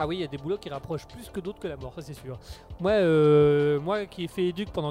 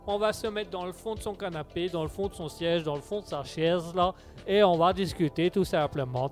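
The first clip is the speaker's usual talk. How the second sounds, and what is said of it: Suddenly puts on an accent. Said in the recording (French): “pourquoi j'ai pris cet accent tout d'un coup là”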